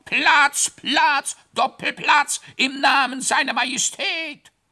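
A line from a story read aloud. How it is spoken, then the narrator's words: Shouting fading into distance. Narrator (German): Das Geschrei entfernte sich in Richtung zur Murmelschlucht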